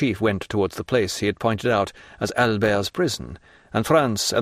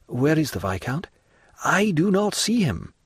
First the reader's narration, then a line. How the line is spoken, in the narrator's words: said Franz uneasily